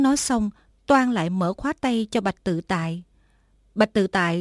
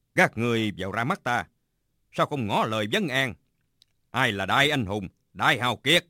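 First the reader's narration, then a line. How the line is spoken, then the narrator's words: Shouted command. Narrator (Vietnamese): Bạch Tự Tại quát lên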